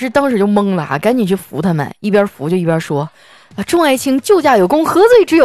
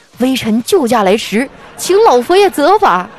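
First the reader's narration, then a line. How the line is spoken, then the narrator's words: Shouting together. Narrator (Chinese): 这仨哥们儿就跟老师喊上了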